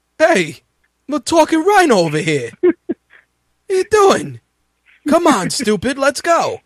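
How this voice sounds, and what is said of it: Put-on Brooklyn accent impression. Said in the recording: “If he can pull off that Brooklyn accent ... the dice man”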